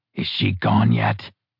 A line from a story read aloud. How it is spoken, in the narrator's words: Clark whispered